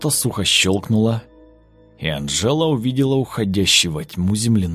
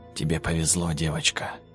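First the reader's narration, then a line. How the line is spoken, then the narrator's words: Whisper. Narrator (Russian): прошептал он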